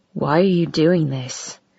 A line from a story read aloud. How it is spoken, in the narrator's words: he demanded in a low voice against my mouth